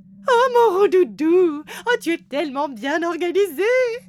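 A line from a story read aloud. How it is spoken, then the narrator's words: Exclaiming. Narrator (French): s'écrie Cracotte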